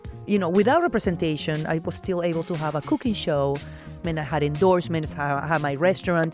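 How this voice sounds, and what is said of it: Foreign-accented English. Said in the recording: “your accent”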